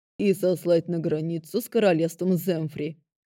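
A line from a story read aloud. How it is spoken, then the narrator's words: Growl. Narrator (Russian): рыкнул я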